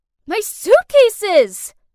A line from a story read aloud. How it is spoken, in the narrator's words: I yelled